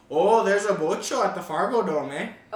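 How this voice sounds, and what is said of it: Put-on North Dakota accent. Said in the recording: “North Dakota accent is... slightly... Canadian... That was a really good”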